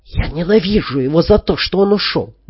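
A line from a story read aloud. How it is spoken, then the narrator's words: Feverish muttering. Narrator (Russian): горячечно бормотала Юлия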